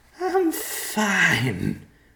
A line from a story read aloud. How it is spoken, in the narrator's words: Jensen slurred